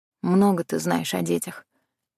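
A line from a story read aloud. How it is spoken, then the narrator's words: Grim smirk. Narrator (Russian): мрачно усмехнулась я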